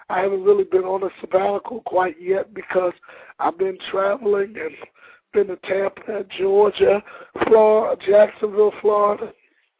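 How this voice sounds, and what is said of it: Hoarse, mostly lost voice. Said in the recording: “I've even lost my voice being out of town.”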